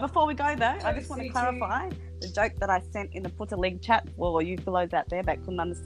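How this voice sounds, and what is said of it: Usual voice. Nothing is said of it.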